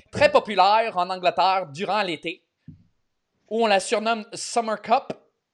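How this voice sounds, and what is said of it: Put-on Québécois French accent. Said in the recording (French): “il faut que je lise dans un accent québécois maintenant”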